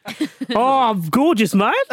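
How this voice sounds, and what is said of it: Put-on accent imitating a footballer. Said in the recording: “should have got Vish to do the accent.”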